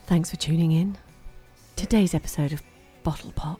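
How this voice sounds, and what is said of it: Sultry seductive voice. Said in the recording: “do my sex voice? ... That was really good.”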